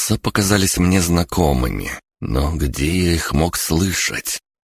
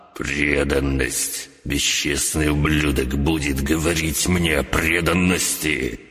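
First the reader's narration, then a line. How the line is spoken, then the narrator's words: Hissed through teeth. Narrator (Russian): процедил Фалькор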